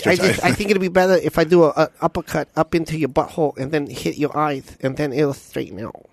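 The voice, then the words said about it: Imitates another person's voice. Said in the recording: “that was an amazing impersonation of Mike Tyson ... It was very good.”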